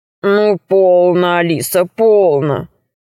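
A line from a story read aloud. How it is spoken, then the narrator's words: Deep bass voice. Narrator (Russian): сказал дракон басом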